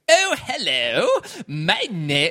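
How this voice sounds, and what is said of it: Very posh upper-class English accent. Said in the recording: “the poshest, like most, like all, like Prince Charles kind of accent ... super high class, like upper class, stiff upper lip, like the most high class accent I've ever heard”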